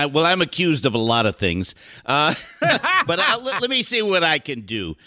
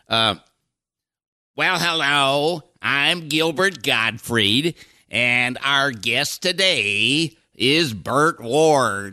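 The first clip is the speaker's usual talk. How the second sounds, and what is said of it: Gilbert Gottfried impression. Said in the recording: “you do a Gilbert impression ... Pretty good.”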